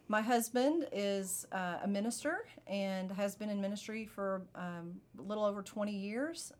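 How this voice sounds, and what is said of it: Kentucky Southern American accent. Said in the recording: “I'm originally from Kentucky. So if you hear that in my voice, then there you go. ... where that accent is.”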